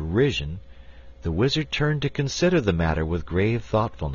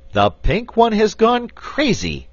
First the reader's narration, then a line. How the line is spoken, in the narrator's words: exclaimed Button-Bright